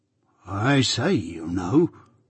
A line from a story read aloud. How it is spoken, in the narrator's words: muttered Joe, in very serious remonstrance